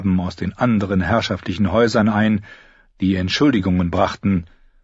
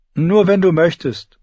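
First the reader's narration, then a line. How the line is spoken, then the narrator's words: Laughing. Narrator (German): Clay lachte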